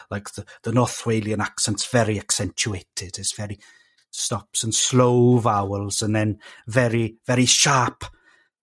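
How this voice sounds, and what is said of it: South Wales accent. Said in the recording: “South Wales accent, which is what you're hearing right now”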